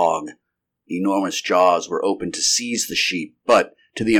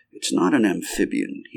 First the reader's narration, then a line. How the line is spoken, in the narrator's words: he muttered